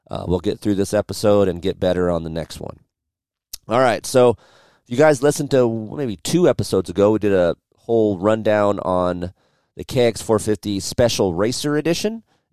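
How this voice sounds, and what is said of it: Hoarse, sick-sounding voice. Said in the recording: “my voice is a little bit hoarse, sounds like dog shit”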